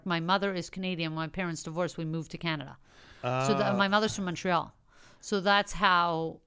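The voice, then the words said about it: New York accent. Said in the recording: “people from Montreal could sound exactly like people I knew in New York City. ... you sound like straight from the source.”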